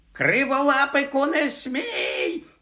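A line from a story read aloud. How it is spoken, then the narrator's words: Witch shrieking. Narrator (Ukrainian): заверещала відьма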